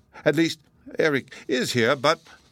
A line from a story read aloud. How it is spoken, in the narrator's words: her voice quivered